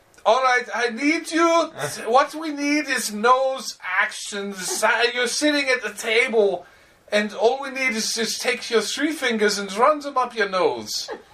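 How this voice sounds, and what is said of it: Exaggerated Paul Verhoeven accent impression. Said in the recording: “the outrageous Paul Verhoeven accent”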